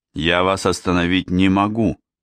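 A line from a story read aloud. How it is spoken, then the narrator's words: Plain. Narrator (Russian): сказал я ему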